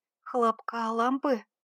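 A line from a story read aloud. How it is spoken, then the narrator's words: Thin-voiced question. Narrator (Russian): переспросила она тонким голосом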